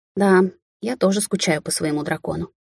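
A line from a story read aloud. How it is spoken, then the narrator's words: Muttered. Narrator (Russian): пробормотала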